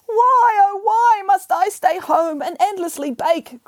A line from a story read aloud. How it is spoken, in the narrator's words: cried Pigarella